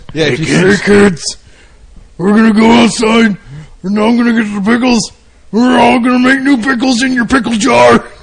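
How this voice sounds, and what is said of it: Creepy, scary character voice. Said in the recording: “Do the voice. ... I don't like that voice. It's scary.”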